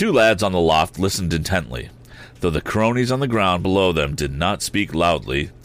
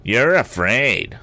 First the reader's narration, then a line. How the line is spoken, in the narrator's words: sneered Sam